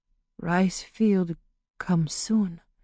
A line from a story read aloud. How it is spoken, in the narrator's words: she mumbled